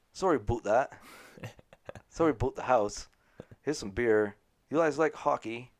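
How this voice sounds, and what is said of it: Poor put-on Canadian accent. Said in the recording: “Your Canadian accent is awful.”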